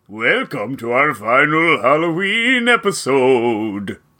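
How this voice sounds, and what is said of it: Spooky Halloween character voice. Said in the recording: “you came up with a spooky voice for this one”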